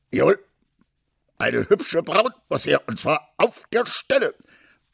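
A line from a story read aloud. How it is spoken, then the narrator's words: Enthusiastic roaring. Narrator (German): brüllte der General begeistert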